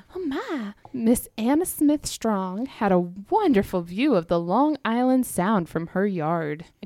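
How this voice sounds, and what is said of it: Put-on Southern belle accent. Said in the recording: “I don't think she'd have that accent if she was in New York or Long Island ... She wouldn't be a Southern Belle ... So we're going Southern.”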